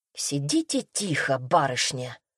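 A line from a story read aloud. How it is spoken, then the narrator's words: Young man, through teeth. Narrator (Russian): процедил молодой человек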